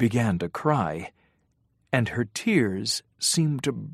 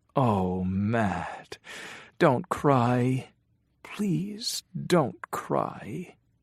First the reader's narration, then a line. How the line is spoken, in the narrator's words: he said softly